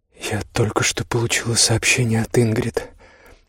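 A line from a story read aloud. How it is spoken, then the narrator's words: Quiet voice. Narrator (Russian): сказала она тихим голосом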